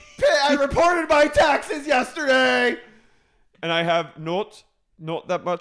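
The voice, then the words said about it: Put-on accent sounding South African. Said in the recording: “My accent is South African. It's not even Australian. ... It is a little South African, doll.”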